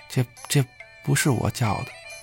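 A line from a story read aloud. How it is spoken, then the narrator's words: Trembling, barely audible. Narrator (Chinese): 贺道台慌忙的，声音抖得都快听不见了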